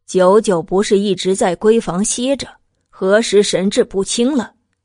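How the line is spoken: Cold. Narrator (Chinese): 冷声道

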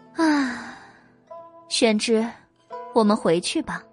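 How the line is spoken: Sighing. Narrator (Chinese): 白姬叹了一口气，说道

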